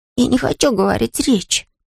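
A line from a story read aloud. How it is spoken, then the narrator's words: Whispered. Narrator (Russian): прошептал Мортон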